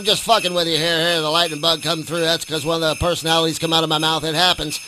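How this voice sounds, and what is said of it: Usual voice. Nothing is said of it.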